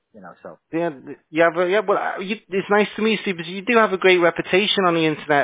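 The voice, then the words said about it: British accent. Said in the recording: “I was born in the UK ... you notice the accent”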